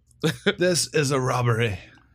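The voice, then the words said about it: Put-on Australian accent. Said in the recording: “Let's hear the accent. ... We're going to lose any Australian listeners we might have had from this episode.”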